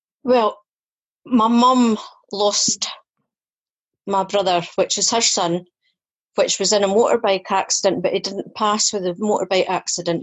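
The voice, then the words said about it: Scottish accent. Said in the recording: “that's a familiar accent ... Scottish.”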